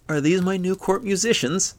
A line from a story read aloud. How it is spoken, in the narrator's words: laughed Yadmund